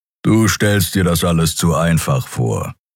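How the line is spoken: Growl. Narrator (German): knurrte der Skria

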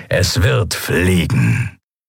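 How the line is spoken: Satisfied grumble. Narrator (German): brummte der Skria hörbar zufrieden

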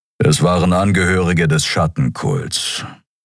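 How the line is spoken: Grumbling. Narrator (German): brummte Kero

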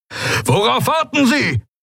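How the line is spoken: Roared. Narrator (German): brüllte Helios

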